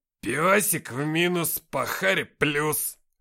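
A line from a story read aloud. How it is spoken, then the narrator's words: Growled. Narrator (Russian): прорычал Никита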